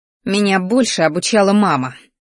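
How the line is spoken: Angry words through teeth. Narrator (Russian): злобно процедила сквозь зубы

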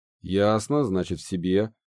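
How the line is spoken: Snorting grunt. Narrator (Russian): хмыкнул Гидеон

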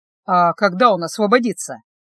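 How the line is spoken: Gloomy question. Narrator (Russian): мрачно спросил Стефана

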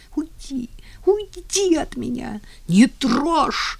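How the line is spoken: Screaming through sobs. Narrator (Russian): кричала она сквозь рыдание

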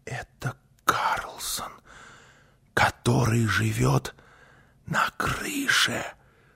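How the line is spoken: Whispered. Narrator (Russian): прошептала Гунила

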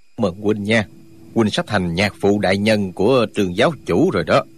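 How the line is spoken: Knowing smile. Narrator (Vietnamese): Duy Nhất Tiếu mỉm cười ngụ ý

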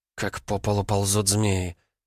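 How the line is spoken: Reverent whisper. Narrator (Russian): прошептала она почти с благоговением

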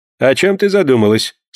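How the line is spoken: Plain. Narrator (Russian): спросил ее маэстро

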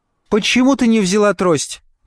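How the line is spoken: Shouted. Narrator (Russian): крикнула она матери

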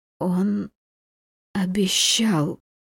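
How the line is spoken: Strained, barely audible rustle. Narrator (Russian): с трудом выговорила едва слышно, как шелест ветра в кронах

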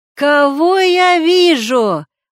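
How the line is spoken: Sudden loud shout. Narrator (Russian): вдруг зычно крикнул

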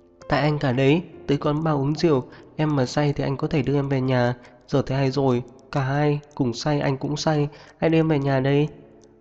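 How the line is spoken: Soft, after long silence. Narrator (Vietnamese): Rất lâu sau cô mới khẽ lên tiếng

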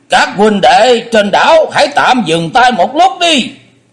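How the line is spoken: Raised voice calling out. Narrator (Vietnamese): có người cất cao giọng kêu lên

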